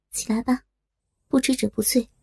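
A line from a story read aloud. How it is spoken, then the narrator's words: Flat, cool voice. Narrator (Chinese): 他声音淡了淡，说道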